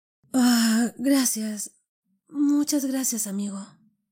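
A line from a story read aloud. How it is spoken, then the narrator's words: Faint, weak young voice. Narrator (Spanish): respondió el joven con voz desfalleciente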